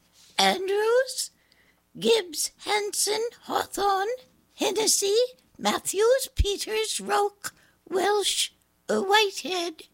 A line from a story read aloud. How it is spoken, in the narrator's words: Miss Elson called the roll and her voice squeaked